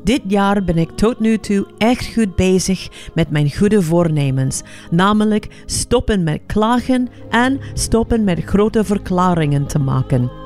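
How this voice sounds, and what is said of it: Heavy non-native accent in Dutch. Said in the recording (Dutch): “zonder accent Nederlands praten ... waarom heb je zo'n irritant zwaar accent?”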